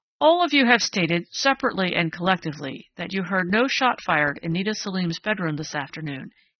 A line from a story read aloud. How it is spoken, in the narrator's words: said sharply